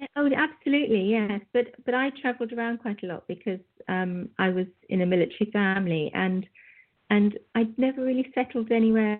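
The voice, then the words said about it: Light, easy-to-understand UK accent. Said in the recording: “a beautiful accent. And you know, you don't have a heavy, I guess you could call it brogue.”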